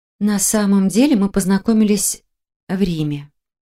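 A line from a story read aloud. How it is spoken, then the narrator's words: Languid sigh. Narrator (Russian): томно вздохнула Марина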